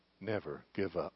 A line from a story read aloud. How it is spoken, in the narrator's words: in a low tone